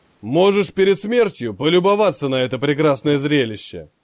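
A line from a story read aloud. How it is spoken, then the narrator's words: Menacing rumble. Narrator (Russian): Грозно пророкотал Черная борода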